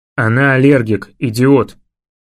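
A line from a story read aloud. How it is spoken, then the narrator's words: Growling. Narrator (Russian): прорычал я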